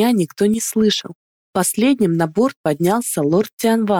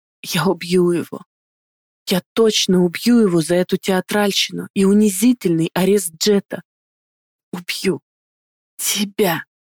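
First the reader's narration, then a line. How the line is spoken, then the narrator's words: Drugged, strained whisper. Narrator (Russian): прошептала Ихтару, превозмогая действия медикаментов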